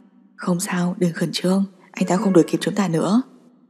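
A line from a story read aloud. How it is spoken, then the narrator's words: Gentle, soothing. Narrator (Vietnamese): Cam Nhị Toàn dịu dàng dỗ dành nói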